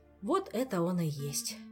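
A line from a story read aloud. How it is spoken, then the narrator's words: Relieved sigh. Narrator (Russian): облегченно вздохнул Кантор, узрев знакомое лицо вождя и идеолога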